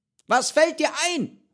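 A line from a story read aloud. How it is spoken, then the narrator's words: Called out. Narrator (German): ruft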